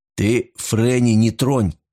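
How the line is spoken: Growled. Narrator (Russian): прорычал Кристоф

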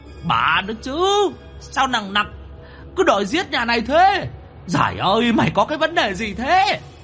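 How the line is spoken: Ghostly howl. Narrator (Vietnamese): Quỷ mõm gào lên

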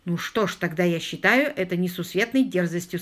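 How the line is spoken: Plain. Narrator (Russian): сказал я

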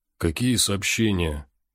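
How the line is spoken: Confused mumble. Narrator (Russian): растерянно пробормотал он

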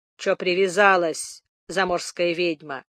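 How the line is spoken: Mumble. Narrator (Russian): пробормотал рыжий дуралей

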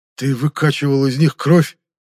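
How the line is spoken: Breathy, salivating prisoner. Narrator (Russian): выдохнул пленник, борясь с неприятно усилившимся слюноотделением

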